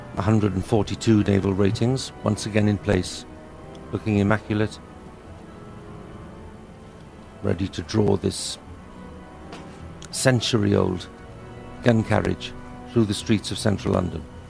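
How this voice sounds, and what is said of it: Proper upper-class British accent. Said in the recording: “That's a very proper British accent. ... someone who's obviously been schooled at Oxford or Cambridge”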